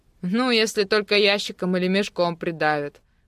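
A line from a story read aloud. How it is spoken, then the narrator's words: Short laugh. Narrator (Russian): хохотнул Кирилл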